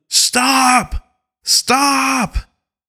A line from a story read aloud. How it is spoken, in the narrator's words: He's yelling